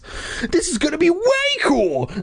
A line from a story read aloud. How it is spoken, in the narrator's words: I exclaimed